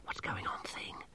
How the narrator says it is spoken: Masklin whispered

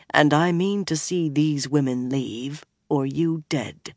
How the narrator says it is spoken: he said softly

